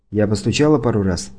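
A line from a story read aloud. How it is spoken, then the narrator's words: Quiet. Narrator (Russian): тихо сказала она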